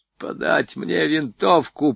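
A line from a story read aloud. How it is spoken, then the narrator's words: Hoarse rasp. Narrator (Russian): прохрипел Чиж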